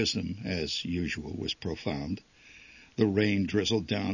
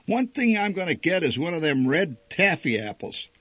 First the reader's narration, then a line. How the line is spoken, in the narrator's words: Kissel shouted